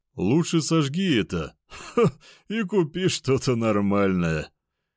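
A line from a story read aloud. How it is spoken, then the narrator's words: Loud laughter. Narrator (Russian): в голос рассмеялся зомби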